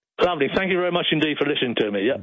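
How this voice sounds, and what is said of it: British accent. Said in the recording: “in the UK, as you can probably tell from that fantastic accent.”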